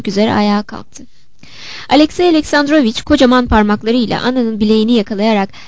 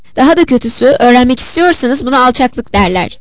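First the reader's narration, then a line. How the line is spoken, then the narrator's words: Shouted angrily. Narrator (Turkish): diye bağırdı öfkeyle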